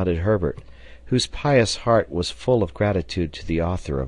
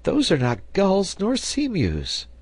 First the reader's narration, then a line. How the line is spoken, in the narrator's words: cried he